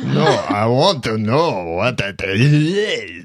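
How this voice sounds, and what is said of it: Very bad put-on French accent. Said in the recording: “the worst French accent ever”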